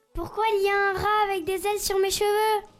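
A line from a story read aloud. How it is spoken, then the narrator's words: Shout. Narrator (French): crie Aurore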